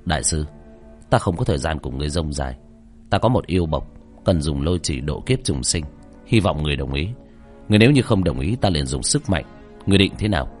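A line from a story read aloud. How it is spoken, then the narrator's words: Cold old monk. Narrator (Vietnamese): Lão hòa thượng cầm đầu ... lạnh lùng nói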